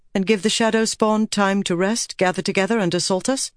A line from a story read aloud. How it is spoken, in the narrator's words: Elaine asked